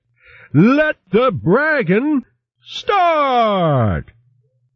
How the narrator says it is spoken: Then he shouted

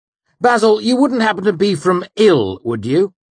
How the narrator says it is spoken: Hemme asked, smiling sharply

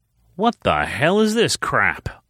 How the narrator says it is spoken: Austin growled, with a look of sheer disgust on his face

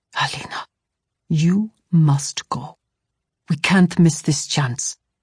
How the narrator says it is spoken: he whispered

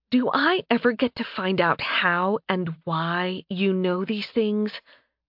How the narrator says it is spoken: Alice asked quietly, her voice barely above a whisper

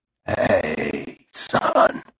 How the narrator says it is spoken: he croaked

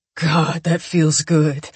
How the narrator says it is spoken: Coop says through gritted teeth

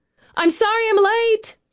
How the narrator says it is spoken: she called out to Angie

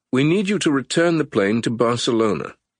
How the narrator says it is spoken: Winston said, his tone eerily businesslike considering what had just transpired

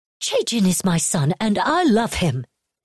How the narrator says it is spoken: Huazo snapped indignantly

